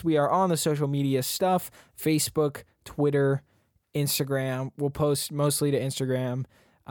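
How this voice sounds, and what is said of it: Slurred speech. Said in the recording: “I'm slurring my words, I swear I'm not usually this crap”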